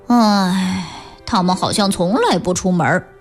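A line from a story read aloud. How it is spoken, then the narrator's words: Sigh. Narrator (Chinese): 可强强叹了口气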